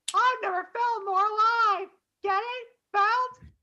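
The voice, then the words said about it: Bad cartoon character impression. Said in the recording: “my terrible Cosmo impression.”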